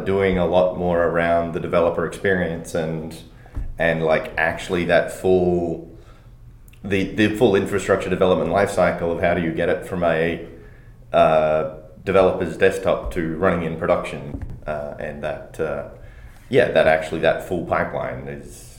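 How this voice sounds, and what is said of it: Australian accent mixed with American. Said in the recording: “A weird Australian hybrid, depending on how many Americans I've been talking to recently.”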